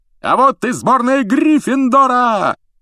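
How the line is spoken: Yelling commentator. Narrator (Russian): завопил Ли Джордан, который, как обычно, выступал в роли комментатора

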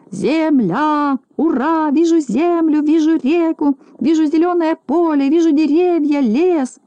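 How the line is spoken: Shouting. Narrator (Russian): закричал

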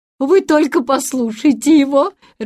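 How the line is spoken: Aunt laughing. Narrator (Russian): рассмеялась тетушка Бринкер

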